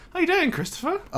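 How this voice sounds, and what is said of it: Voice jumps very high in pitch. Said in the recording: “My voice went very high there.”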